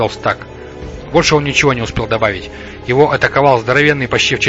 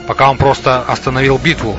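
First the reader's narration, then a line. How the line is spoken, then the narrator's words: Plain. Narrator (Russian): ответил Ди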